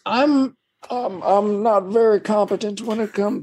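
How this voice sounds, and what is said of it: Old man voice impression. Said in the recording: “my old man impression”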